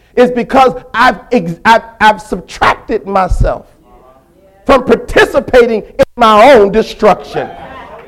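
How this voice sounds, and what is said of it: Shouting preacher. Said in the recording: “I'm shouting this morning ... why I'm shouting, the biggest reason I'm shouting”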